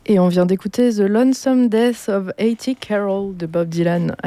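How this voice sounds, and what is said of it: Put-on English accent. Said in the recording (French): “avec toujours mon meilleur accent anglais”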